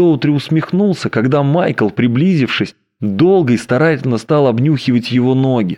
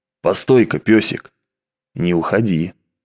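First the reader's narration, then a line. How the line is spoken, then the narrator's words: Hoarse curt remark. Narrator (Russian): он хрипло бросил ему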